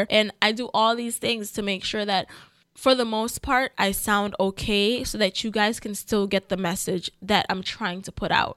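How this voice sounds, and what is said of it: Voice sounds like a cold. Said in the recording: “I have a cold”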